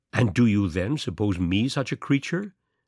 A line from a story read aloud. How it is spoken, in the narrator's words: asked Markheim